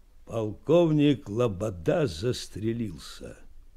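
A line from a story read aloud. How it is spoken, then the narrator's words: Muffled unknown voice. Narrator (Russian): глухо сказал чей-то голос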